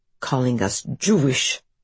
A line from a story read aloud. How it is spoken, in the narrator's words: Adam mutters under his breath